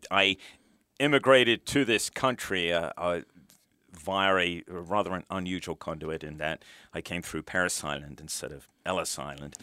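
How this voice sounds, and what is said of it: British accent. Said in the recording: “as you can probably tell from my accent, from the UK originally”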